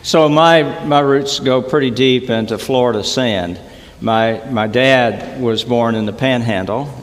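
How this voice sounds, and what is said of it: Noticeable regional accent. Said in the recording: “where did that accent come from that you have?”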